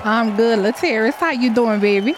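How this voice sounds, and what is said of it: Put-on New Orleans accent. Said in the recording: “every time I hear your name, I have to put on the New Orleans accent ... you got to go into your New Orleans”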